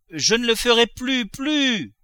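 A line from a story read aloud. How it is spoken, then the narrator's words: Shouted, cooper. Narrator (French): cria le tonnelier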